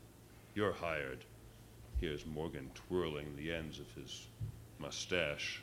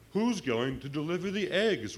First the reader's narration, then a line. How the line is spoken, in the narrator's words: wailed Francine